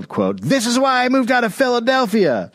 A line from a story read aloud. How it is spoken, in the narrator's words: One man yelled